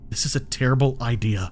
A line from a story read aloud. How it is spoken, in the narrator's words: muttered